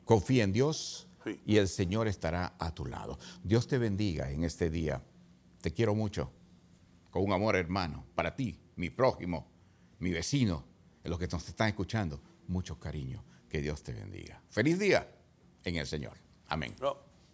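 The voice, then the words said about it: Quiet, almost whispered speech. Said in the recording (Spanish): “Habla más alto. ... tú a veces bajas el volumen y te pones como, como susurrando.”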